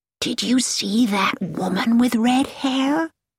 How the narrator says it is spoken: whispered Mrs

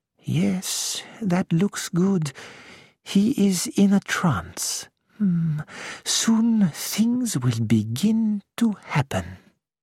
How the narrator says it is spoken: Poirot murmured

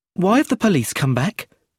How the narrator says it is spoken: said Brenda nervously

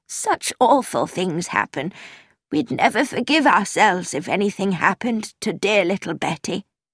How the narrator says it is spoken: Miss Minton said weakly

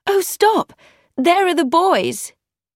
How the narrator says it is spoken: Emma cried

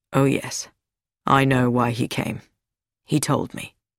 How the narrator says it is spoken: Louis Sericold said quietly

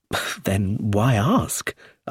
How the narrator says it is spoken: I said

